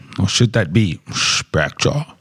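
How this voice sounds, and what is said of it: Sean Connery James Bond impression. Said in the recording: “That's my Sean Connery James Bond impersonation”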